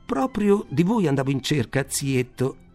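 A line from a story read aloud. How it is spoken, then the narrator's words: Exclaimed. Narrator (Italian): esclamò costui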